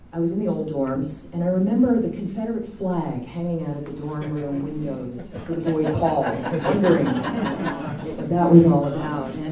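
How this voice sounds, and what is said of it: New Jersey accent. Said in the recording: “I come from New Jersey, you can probably tell by my accent.”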